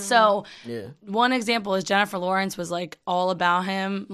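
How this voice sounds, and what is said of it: Hoarse, losing her voice. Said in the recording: “he sounds sexy as shit with the voice... I'm losing my voice... She's losing her voice. She sounds like Jennifer Tilly”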